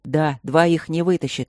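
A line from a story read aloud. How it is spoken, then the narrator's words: Snapped angrily. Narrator (Russian): зло бросил Нат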